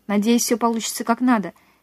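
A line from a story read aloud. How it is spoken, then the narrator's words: Plain. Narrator (Russian): сказал я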